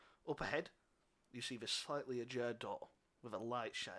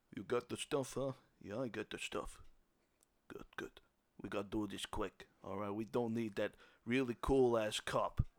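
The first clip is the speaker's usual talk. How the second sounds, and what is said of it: Thick put-on Italian American accent. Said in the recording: “very thick Italian accents ... American Italian”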